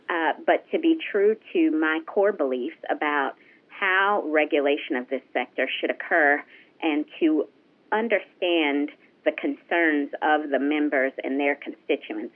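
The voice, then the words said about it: Southern drawl. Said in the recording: “hence my continued Southern drawl, even though I've been here 4 years”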